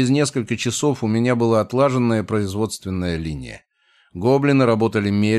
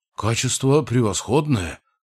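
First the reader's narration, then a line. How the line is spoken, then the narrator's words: Gnome's muttering. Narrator (Russian): бормотал гном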